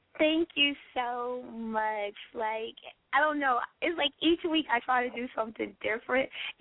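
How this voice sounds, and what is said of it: Sick-sounding voice. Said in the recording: “Y'all have to excuse my voice. I'm getting over a cold”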